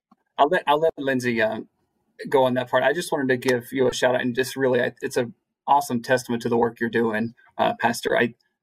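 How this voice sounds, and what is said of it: Southern US accent. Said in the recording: “being from Southwest Virginia, hence the Southern accent that comes out when I get nervous”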